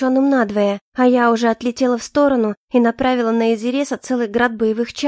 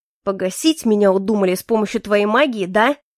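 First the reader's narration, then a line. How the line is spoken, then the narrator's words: Rumbled angrily. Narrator (Russian): зло пророкотал Изирес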